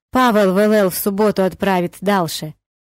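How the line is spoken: Muffled voice from freezer. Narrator (Russian): Голос дяди Тимура глухо звучал из недр морозильного монстра

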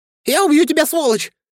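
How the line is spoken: Shrill falsetto shout. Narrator (Russian): закричал братец тонким фальцетом

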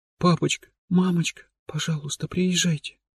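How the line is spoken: Whispering. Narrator (Russian): шептала Есен

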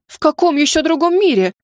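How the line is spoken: Exclamation. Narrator (Russian): воскликнула я

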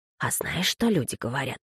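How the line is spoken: Answering whisper. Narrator (Russian): послышался ответный шепот

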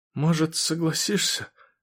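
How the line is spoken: Quiet. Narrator (Russian): сказал он тихо

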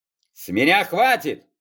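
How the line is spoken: Roaring. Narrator (Russian): взревел управляющий

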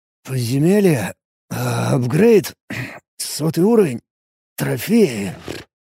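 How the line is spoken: Mumble. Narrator (Russian): пробормотал я

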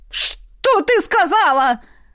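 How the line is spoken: Piercing shriek. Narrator (Russian): Взвизгнул он так, что я скривилась

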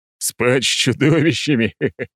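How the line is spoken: Loud laughter. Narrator (Russian): В голос рассмеялся я

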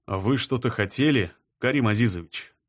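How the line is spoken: Calm inquiry. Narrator (Russian): Спокойно поинтересовался Романов

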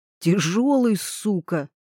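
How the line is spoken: Hateful hiss. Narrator (Russian): прошипел с ненавистью

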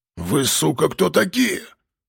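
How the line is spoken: Hoarse rasp. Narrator (Russian): прохрипел возникший рядом стрелок с обрезом

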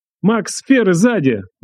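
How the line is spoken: Yelling. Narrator (Russian): заорал Дэн

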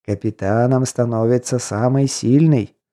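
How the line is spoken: Instructive tone, devil. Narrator (Russian): наставническим тоном сообщил мне черт

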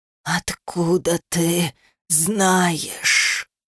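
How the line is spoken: Hoarse rasp. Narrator (Russian): прохрипел

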